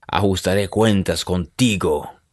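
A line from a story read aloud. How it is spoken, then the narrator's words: Growling. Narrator (Spanish): gruñó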